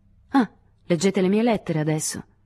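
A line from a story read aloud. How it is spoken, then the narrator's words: Irritated voice. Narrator (Italian): disse Lewis con voce irritata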